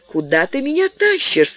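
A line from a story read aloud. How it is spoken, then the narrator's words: Laughing. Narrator (Russian): смеялась Шарлотта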